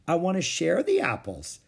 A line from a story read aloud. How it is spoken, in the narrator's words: she said sweetly